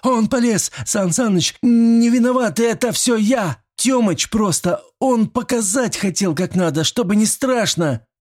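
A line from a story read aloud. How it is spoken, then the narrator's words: Child sobbing while running. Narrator (Russian): Мелкий рыдал почти навзрыд, но бежал и рассказывал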